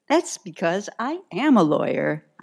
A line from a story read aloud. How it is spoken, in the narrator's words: I said, my voice bright